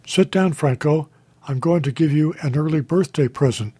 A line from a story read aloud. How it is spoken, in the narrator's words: Riley said